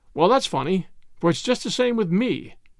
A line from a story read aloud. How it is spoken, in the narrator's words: cried Ainsley